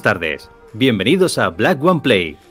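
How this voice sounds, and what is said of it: Radio announcer voice. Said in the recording (Spanish): “Pon tu voz de, locutor. ... ¿Pongo mi voz de locutor?”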